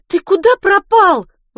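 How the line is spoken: Indignant yell. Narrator (Russian): возмущенно завопила Милослава

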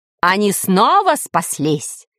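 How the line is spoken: Shouting ruler. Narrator (Russian): кричал повелитель

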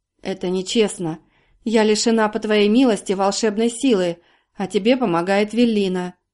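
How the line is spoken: Muffled, hollow voice. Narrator (Russian): Карина глухо произнесла

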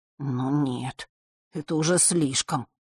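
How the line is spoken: Quiet. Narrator (Russian): тихо произнес Фэш

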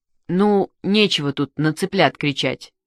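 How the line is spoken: Plain. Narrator (Russian): сказал Мишка

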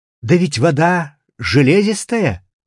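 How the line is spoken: Exclaimed. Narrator (Russian): Только насладившись как следует, я через минуту воскликнул

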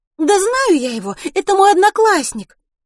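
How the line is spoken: Forced cheerful exclamation. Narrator (Russian): преувеличенно бодро воскликнула Милослава

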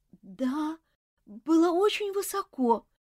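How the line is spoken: Trembling boy's voice. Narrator (Russian): дрожащим голосом ответил мальчик

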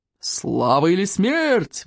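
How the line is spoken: Roaring. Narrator (Russian): взревел стойк обширный

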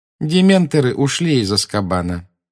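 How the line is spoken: Calm remark. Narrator (Russian): спокойно заметил Малфой

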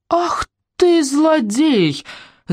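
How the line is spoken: Grandmother shouting. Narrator (Russian): закричала бабушка слону

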